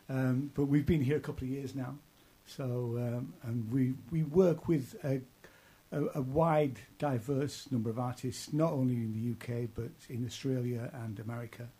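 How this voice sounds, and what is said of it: East Yorkshire English accent. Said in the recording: “Originally, it started in East Yorkshire, where I'm from. I'm probably told by my accent.”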